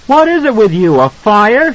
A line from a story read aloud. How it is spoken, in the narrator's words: she shouted